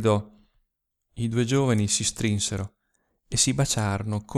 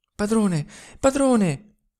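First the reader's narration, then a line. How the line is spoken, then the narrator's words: Panting, stifled voice. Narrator (Italian): rispose quella con voce ansante, soffocata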